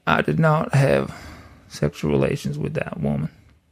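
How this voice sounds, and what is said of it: Bill Clinton impression. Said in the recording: “Mr. President Bill Clinton ... It's so good. It's so good.”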